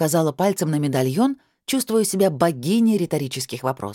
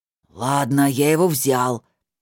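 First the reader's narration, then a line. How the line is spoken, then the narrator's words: Through gritted teeth. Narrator (Russian): процедил Сандерс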